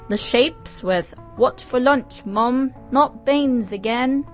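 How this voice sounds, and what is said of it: Put-on British accent. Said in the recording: “Excuse my British accent.”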